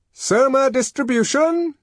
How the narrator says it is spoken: shouted a loud voice

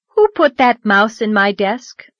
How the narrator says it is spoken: said Anne

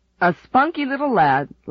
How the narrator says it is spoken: laughed Dad

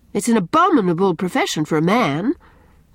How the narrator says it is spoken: cried Anne rather sharply, afraid that Gilbert might blunder on the truth

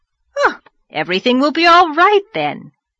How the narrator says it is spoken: cried the rosy lady jubilantly

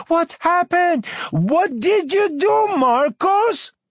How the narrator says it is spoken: Mama running upstairs yelling

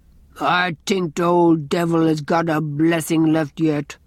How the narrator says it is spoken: growled Andrew

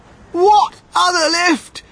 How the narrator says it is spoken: screamed Mrs

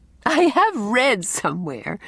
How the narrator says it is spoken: laughed Anne

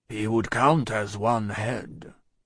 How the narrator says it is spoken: observed Jacques III in a low voice

